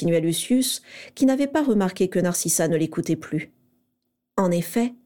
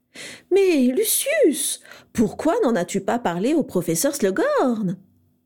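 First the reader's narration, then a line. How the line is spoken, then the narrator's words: Clear abrupt exclamation. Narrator (French): s'exclama-t-elle d'une voix claire sans préambule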